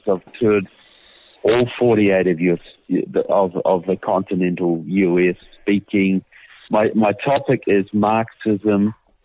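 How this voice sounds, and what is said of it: New Zealand accent. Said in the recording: “I'm from New Zealand, as you will tell by my accent.”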